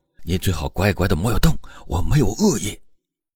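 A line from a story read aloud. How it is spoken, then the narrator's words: Low voice. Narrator (Chinese): 低声说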